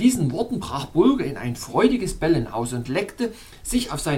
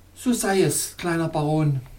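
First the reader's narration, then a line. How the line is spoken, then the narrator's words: Joyful exclamation. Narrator (German): rief Galaxa freudig aus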